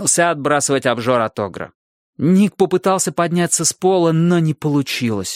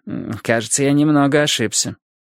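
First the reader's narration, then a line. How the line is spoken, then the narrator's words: Curt grumble. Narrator (Russian): Милос только буркнул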